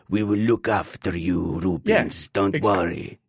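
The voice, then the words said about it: Put-on unidentified accent. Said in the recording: “I don't know what that accent was.”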